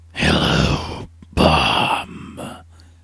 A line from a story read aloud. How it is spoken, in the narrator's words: the beast hissed